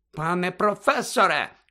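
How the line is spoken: Shout. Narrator (Ukrainian): крикнула мадам Помфрі

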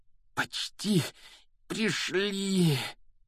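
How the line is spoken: Heavy breathless exhale. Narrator (Russian): Тяжело выдохнул Гарри

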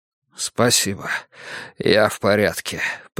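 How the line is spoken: Mutter. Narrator (Russian): пробормотал Йона

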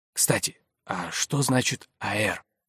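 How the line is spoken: Whisper. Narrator (Russian): Крушунович перешел на шепот

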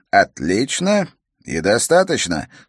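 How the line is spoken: Calm. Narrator (Russian): спокойно сказал он

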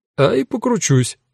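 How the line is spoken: Cheerful agreement. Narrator (Russian): весело согласился Эда

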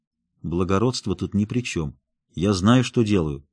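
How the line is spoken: Quiet reply. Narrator (Russian): так же тихо ответил Рот

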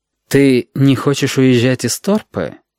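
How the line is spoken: Insinuating, ingratiating. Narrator (Russian): вкрадчиво спросил Валентин

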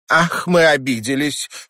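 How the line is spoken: Snort. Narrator (Russian): фыркнула миссис Нортон

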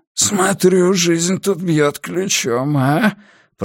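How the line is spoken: Wheezing. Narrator (Russian): просипел Уилл

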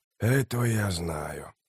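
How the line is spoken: Quiet. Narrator (Russian): тихо произнес Трель

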